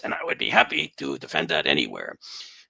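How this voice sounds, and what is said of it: Imitates another person's voice. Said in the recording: “in my Fauci voice”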